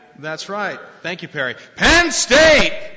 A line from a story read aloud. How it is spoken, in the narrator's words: they yell back